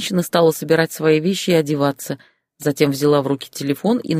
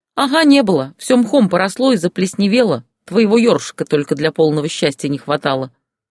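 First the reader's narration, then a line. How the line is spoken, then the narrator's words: Angry reply. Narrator (Russian): сердито ответила она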